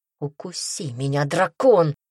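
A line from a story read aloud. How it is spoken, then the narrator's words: Growled. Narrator (Russian): прорычал он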